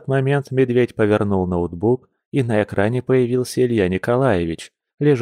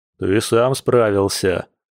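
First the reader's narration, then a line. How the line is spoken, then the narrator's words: Friend's loud laughter. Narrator (Russian): захохотал друг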